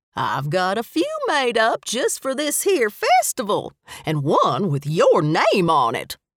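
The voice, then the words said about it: Thick Southern drawl. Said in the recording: “Her southern drawl was as thick as sweet tea.”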